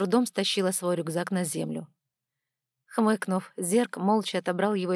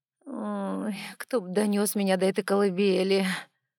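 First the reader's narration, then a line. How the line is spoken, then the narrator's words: Inward moan. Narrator (Russian): Простонала про себя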